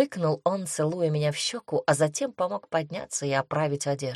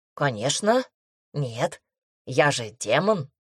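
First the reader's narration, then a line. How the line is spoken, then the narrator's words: Smirking grunt, demon. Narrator (Russian): Хмыкнул, собственно, демон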